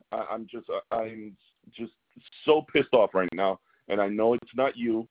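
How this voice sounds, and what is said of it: Angry yelling. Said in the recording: “I'm sorry if I'm yelling.”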